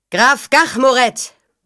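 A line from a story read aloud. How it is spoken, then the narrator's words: Familiar voice roaring. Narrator (German): brüllte eine vertraute Stimme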